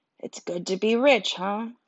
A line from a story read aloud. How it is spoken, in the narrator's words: I whispered to Joshua